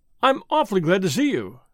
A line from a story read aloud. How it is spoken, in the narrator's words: said the young man, eagerly